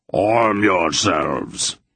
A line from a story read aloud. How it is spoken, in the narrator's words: the big man roared